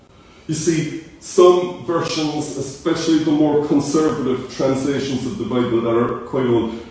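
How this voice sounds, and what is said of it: Irish Cork accent. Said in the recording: “my Cork accent,”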